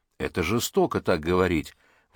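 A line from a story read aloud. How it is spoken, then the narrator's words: Exclamation. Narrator (Russian): воскликнула Лиза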